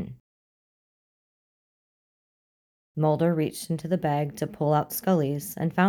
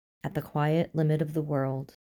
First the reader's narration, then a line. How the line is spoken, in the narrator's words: he whispered, quoting her Tennyson